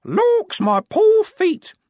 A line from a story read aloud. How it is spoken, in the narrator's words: in varying tones of fingernail screech